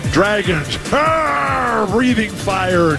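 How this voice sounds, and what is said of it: Poor imitation of a dragon roar. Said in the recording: “worst impression ... that dragon wasn't so great either”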